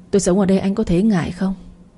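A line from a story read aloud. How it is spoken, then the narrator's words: Coughing, asking. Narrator (Vietnamese): Diễm ho sặc sụa mấy cái rồi hỏi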